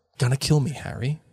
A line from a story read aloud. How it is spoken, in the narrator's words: he whispered